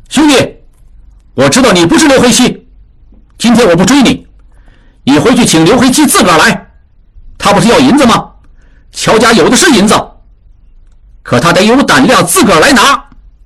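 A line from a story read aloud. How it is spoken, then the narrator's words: Shouting up to the roof. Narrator (Chinese): 智庸冲房顶上喊道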